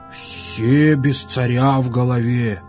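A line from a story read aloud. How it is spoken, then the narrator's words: Strained, forced out. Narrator (Russian): сказал, будто выдавил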